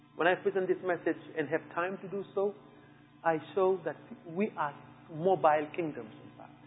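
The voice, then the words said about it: French accent. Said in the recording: “my French accent betrays me”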